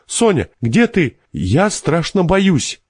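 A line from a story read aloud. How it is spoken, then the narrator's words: Involuntary cry. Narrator (Russian): Она все-таки бессознательно крикнула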